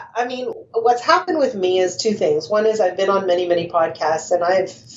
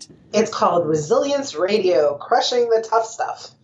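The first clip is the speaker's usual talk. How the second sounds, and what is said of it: Put-on radio announcer voice. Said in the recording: “I try to put on my radio voice there.”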